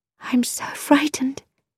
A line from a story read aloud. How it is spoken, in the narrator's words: she whispered